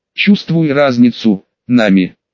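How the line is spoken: Slightly irritated. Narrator (Russian): немного раздраженно произнес Зара, словно девушка на самом деле совершила какую-то серьезную ошибку

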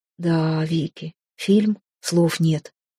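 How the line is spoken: Drawl. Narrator (Russian): протянул блондин

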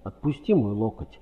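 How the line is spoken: Sharp. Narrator (Russian): резко сказала Кэрол

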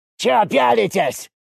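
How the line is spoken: Curt remark. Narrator (Russian): бросил он

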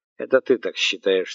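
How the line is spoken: Plain. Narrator (Russian): сказал Капелюшников

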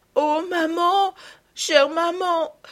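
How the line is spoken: Exclaiming. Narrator (French): s'écria Marguerite

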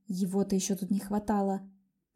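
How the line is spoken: Muttered under breath. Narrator (Russian): Пробурчала я себе под нос

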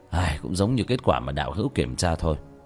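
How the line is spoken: Sighing. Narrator (Vietnamese): Trần Thần thở dài

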